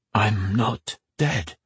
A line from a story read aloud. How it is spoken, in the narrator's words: he whispered